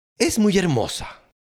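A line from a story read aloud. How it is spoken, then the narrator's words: Crowd exclaiming. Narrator (Spanish): todos exclamaban con su majestad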